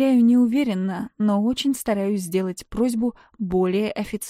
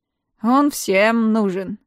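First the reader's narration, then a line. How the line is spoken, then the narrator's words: Mocking reply. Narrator (Russian): насмешливо отвечает мужичок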